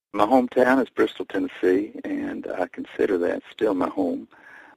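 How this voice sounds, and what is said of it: Regional accent, not New York. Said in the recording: “your accent gives you away that that's not home”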